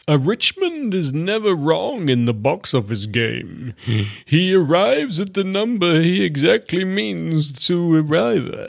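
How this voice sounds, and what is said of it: Gandalf character voice. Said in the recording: “your Gandalf impression”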